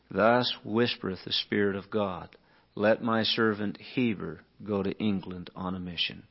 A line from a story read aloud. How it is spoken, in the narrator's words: quietly he whispers to him, and he says